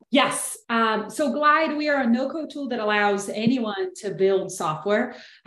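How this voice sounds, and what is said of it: Brazilian accent. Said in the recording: “I'm originally from Brazil, so I hope you enjoy the accent.”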